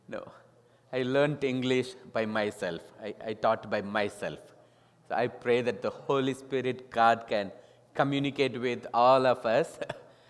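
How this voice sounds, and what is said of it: Non-native English accent. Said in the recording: “Those who find difficulty to understand my accent, please get help from the next person who can understand.”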